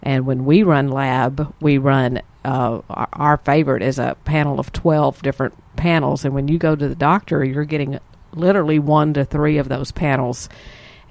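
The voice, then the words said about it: Texas Southern US accent. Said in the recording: “y'all are in Texas because you can hear our accent and you can tell where we're from”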